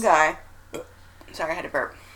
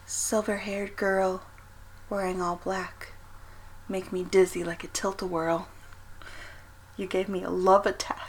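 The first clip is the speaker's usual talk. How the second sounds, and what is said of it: Soft, close-mic recitation. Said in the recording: “I'm going to get close to the mic so I can say it softly.”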